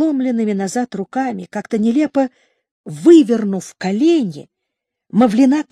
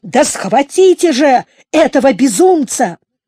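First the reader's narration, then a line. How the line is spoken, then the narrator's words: Shouted. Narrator (Russian): крикнул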